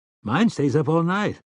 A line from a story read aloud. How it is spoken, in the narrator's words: Eddie said brightly